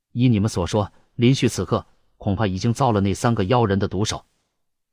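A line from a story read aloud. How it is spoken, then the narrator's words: Deep grave voice. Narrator (Chinese): 屈军沉声说道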